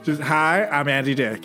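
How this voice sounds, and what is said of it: Imitates another person's voice. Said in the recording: “I can impersonate him if you look at me. ... It's like he's really here.”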